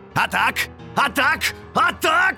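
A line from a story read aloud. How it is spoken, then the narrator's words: Yelling. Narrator (Russian): орал форте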